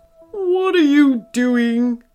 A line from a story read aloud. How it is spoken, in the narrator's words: came the voice again